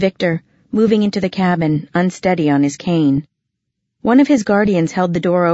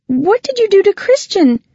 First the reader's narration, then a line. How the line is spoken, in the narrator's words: she cried